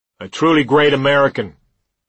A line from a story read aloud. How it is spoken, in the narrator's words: I heard her husband say in a loud, aggressive voice